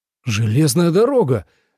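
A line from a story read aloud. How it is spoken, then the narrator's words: Exclaiming. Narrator (Russian): воскликнул он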